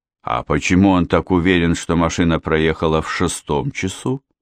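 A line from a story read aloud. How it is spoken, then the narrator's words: Calm question. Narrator (Russian): спокойно спросил сержанта инспектор Хемингуэй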